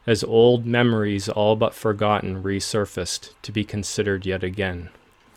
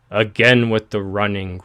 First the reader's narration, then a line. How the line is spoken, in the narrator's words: grumbled Garther under his breath